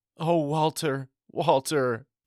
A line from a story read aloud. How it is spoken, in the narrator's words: she moaned